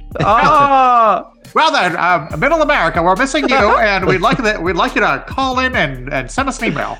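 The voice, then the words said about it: Put-on Mid-Atlantic announcer accent. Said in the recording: “I'll put on my Mid-Atlantic accent for you even ... You're an old-timey 50s announcer.”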